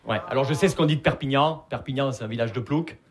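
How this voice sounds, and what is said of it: Southern French accent. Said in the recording (French): “Vous l'entendez à mon accent, je viens pas de Paris. Je viens de Perpignan.”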